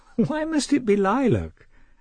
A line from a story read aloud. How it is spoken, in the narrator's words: asked Anna, half laughing